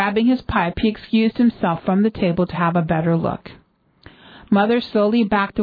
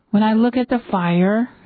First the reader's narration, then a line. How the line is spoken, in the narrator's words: stammered